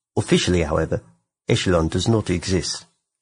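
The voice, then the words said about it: Bad put-on New Zealand accent. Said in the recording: “I'm getting such a Kiwi vibe from that. ... I went Kiwi so hard. ... atrocious accent impersonation”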